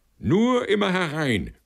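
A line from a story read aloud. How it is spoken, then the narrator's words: Shouted. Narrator (German): schreit er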